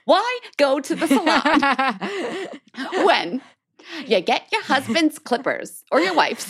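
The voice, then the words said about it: Kristen Wiig's Suze Orman impression. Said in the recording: “I'm turning into Suze Orman ... It's not even Susie Orman. It's Kristen Wiig doing Susie Orman ... This is very Susie Orman”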